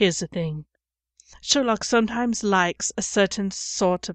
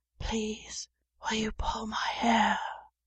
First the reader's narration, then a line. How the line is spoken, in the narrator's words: Sherlock whispered